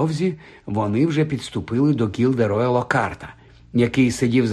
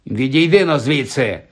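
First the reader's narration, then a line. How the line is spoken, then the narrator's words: Gruff bark. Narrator (Ukrainian): гаркнув він Ронові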